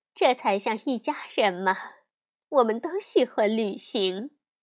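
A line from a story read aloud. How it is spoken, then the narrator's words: Knowing smile. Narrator (Chinese): 卡梅拉会心的笑道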